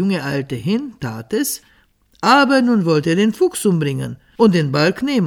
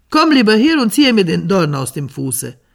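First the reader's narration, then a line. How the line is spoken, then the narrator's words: Fox calling out. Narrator (German): rief ihm der Fuchs zu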